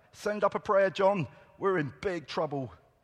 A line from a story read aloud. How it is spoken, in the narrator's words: one shouted to the other